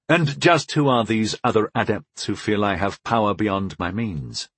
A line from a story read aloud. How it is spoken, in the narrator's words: I asked coolly